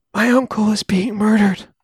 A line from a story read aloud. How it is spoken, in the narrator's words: the best she could do was whisper